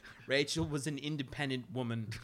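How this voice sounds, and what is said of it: Poor attempt at Alfred's accent. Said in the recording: “I can't do the accent for shit.”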